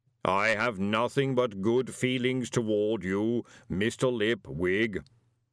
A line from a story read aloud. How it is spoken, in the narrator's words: boomed the voice cheerfully